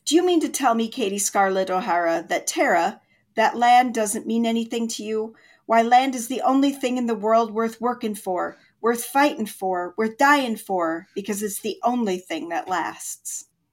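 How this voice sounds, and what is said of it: Slight put-on Irish accent. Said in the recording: “Kind of got into a slight Irish accent there ... Just a hint of one.”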